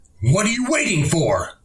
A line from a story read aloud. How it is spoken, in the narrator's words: I screamed, the tenseness and the importance of this moment forcing me to lose the iron self-control upon which I have always prided myself